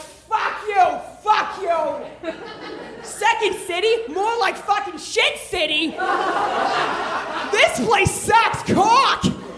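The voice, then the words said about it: Put-on Boston accent, drunken ranting. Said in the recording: “I slip into a Boston accent, which you know I don't fucking have ... it's like Good Will Hunting up in this bitch”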